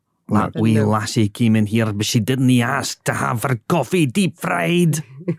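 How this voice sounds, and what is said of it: Put-on Scottish accent. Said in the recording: “it's just a flawless accent ... I'm sure that's gained us just thousands of Scottish listeners.”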